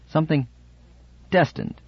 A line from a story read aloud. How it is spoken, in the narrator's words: he said sharply